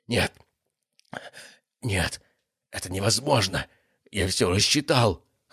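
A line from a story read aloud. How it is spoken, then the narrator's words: Hoarse, pained wheeze. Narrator (Russian): хрипел он, корчась от боли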